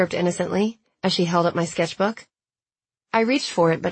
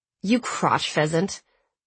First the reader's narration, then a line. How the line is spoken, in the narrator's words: I said through gritted teeth